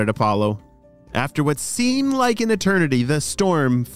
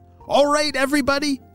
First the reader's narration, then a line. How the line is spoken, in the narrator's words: shouted Apollo as he tried to get all the wasps' attention